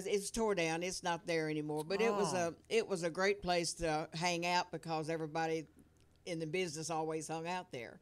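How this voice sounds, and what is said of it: Strong regional accent, hard to understand. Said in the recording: “With your accent, I'm not understanding.”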